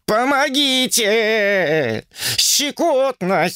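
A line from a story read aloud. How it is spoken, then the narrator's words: Howling. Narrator (Russian): взвыл Сунь-Укун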